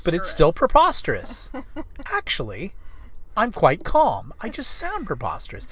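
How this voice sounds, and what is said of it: Imitates another person's voice, calm. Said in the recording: “good Tucker Carlson impression ... You just have to think that everything's preposterous ... you stay kind of calm about it ... Kind of calm. You're kind of calm like this.”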